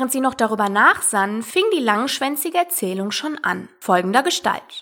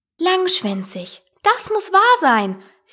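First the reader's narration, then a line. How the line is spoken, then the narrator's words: Call. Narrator (German): rief Alice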